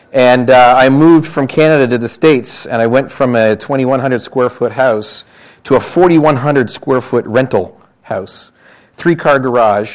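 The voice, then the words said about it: Canadian accent. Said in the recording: “In case you can't tell from my accent, I'm Canadian, not American, Canadian.”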